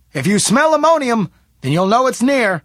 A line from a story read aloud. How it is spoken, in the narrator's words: Smith shouted back at her